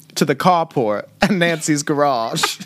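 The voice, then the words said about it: Failed Boston accent, sounds old-fashioned posh. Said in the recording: “you just turned into like the Great Gatsby. That was not like Boston.”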